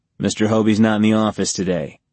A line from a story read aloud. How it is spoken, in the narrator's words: Tony said